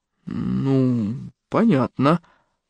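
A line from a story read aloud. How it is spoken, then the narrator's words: Grumble. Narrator (Russian): буркнул Артур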